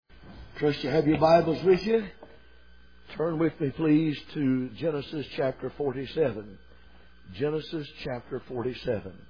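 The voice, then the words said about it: Slightly weak, strained voice. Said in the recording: “my voice is a little bit weak ... I tend to strain a little bit”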